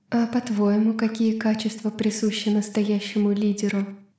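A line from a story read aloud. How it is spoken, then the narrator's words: Plain. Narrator (Russian): спросила она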